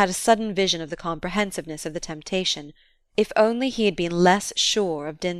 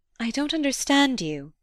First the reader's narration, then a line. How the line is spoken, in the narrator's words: she faltered